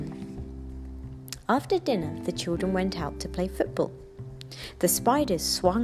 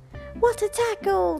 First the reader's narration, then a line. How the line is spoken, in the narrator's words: they cried